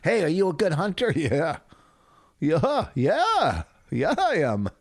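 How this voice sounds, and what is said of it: Put-on Canadian accent. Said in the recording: “You like that accent?”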